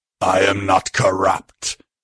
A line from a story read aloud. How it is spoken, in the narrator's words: bellowing reply